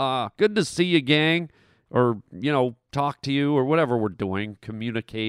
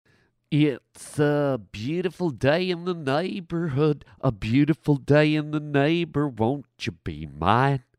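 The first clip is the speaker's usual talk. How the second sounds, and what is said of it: Weird put-on singing voice. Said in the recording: “weird voice”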